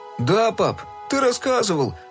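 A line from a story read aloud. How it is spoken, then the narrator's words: Mumbling. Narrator (Russian): промямлил Фил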